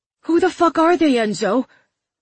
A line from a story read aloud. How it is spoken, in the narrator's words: Bates said, his voice high with panic